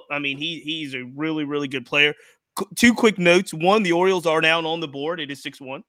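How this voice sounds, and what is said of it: Strong Baltimore accent. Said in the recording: “your Baltimore accent is so much harder core”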